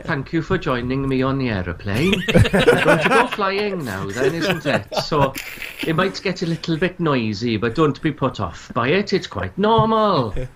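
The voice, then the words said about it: Put-on Welsh accent. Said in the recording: “he should do the entire PA with a Welsh accent”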